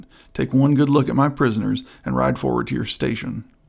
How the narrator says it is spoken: cried Lasalle

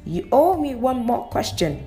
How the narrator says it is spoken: Kay shouted

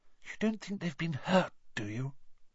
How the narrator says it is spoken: whispered Hermione

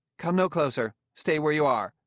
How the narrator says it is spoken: A female voice said sharply

